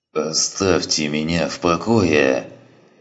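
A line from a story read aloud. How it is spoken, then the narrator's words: Grumbling. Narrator (Russian): ворчал он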